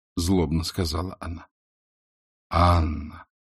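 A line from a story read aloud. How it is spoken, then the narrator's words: Reproachful and tender. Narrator (Russian): укоризненно, нежно проговорил он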